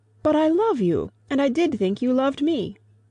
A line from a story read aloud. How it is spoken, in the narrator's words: in a burst of genuine devotion, he cried